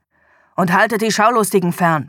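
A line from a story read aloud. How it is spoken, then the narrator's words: Snapping harshly. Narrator (German): schnauzte er seine Untergebenen an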